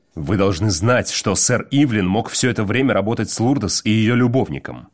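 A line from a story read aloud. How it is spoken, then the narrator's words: Growl. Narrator (Russian): прорычал Уит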